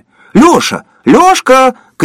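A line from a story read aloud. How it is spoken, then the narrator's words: Distant shout. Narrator (Russian): крикнули от одного из столиков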